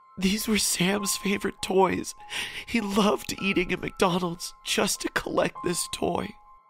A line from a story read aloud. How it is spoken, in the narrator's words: Sam's mom, she said in a sobbing voice